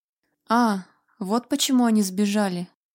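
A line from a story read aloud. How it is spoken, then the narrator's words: Snorting. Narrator (Russian): хмыкнул Вальтер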